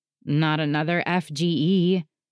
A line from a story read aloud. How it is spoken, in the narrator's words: He groans